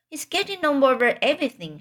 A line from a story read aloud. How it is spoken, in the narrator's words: shouted Fern